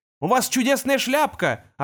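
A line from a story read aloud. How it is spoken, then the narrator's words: Yelling. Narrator (Russian): орал он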